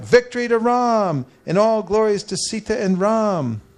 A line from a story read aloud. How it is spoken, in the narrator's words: The huge crowds cried out